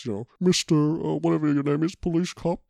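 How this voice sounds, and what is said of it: Silly put-on villain voice. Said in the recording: “what a dumb voice”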